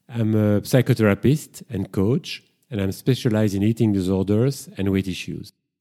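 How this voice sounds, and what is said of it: Strong French accent. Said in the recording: “I'm originally from Brussels. That's why I've got this strong French accent, and I can't get rid of it”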